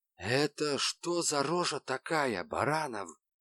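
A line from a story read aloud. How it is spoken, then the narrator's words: Whisper. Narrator (Russian): шепнул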